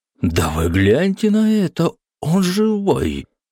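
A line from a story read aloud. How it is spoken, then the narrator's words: Exclaiming wardrobe. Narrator (Russian): воскликнул шкаф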